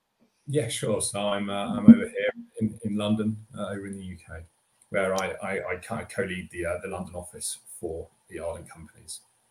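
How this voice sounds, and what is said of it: British accent. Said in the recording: “talking to a Brit ... your accent is a little different than mine and most of our audience”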